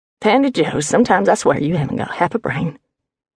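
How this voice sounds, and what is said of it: Harsh, irritated Texas accent. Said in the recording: “harsh, irritated, thick with the Texas accent”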